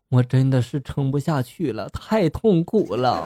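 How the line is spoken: Crying. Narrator (Chinese): 她哭泣着就说了

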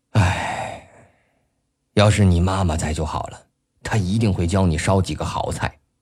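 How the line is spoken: Father, long sigh. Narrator (Chinese): 他毕竟是个父亲 不禁长叹了一声

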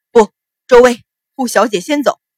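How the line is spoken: Loud roar. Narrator (Chinese): 赵成大声吼道

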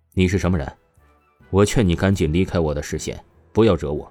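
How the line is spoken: Serious young man. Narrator (Chinese): 这青年男子……丝毫不开玩笑的出声道

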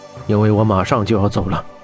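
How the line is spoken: Lowered voice. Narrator (Chinese): 霍真压低语声道

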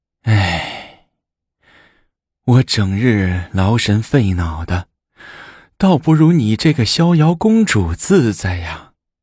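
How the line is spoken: Sighing. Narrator (Chinese): 武则天再叹了一口气，说

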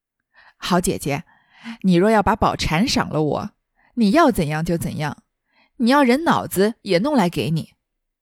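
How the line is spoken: Drunken, emboldened laughing. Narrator (Chinese): 薛蟠仗着酒盖脸，笑道

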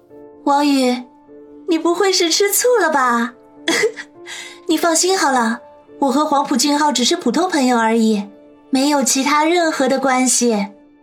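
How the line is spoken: Smiling, placating. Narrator (Chinese): 林雪飞脸上立刻换了笑容，说道

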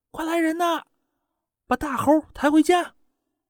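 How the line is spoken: Woman shouting loudly. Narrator (Chinese): 其中一个妇女大声的喊

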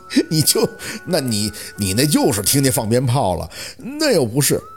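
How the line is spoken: Open mockery. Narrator (Chinese): 小六丝毫不掩饰地对着宝四的嘲笑

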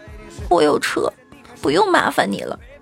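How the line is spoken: Tearful, crying. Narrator (Chinese): 女同学突然红着眼眶，哭着说

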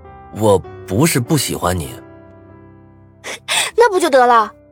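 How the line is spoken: Excited, interrupting. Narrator (Chinese): 王笑笑打断了我，脸上有着掩饰不住的兴奋

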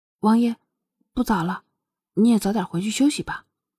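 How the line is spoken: Unusually gentle. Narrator (Chinese): 双月 难得温柔的说道

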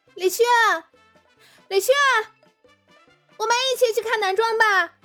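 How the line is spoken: Calling out. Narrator (Chinese): 有人在喊

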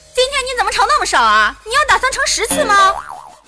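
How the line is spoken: Mother yelling loudly. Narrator (Chinese): 他妈看见后就大声嚷

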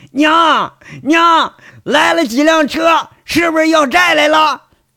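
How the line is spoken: Angry shout. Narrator (Chinese): 大憨就气呼呼，就喊

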